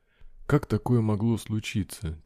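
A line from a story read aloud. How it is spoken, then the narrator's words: Quiet. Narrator (Russian): тихо проговорил Абрахам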